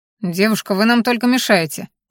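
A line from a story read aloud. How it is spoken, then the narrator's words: Grumbling instructor. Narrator (Russian): проворчал инструктор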